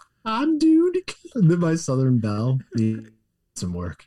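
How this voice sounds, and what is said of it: Usual voice. Nothing is said of it.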